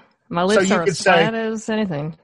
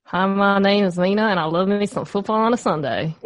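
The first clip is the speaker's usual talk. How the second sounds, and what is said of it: Put-on West Texas accent. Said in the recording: “this is the basis for your West Texas accent right here ... they don't round at all in this accent ... Is that my best accent yet? ... Yes! I think so.”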